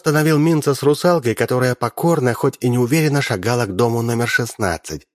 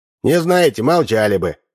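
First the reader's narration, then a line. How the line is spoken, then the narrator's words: Snapping retort. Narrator (Russian): огрызнулся Удалов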